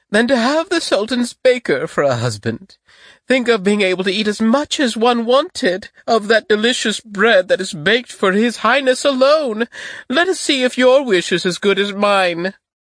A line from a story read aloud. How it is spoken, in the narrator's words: cried the eldest